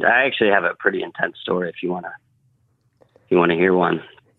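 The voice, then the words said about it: South Jersey accent. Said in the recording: “you got the South Jersey accent”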